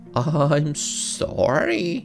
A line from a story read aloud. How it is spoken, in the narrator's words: he spluttered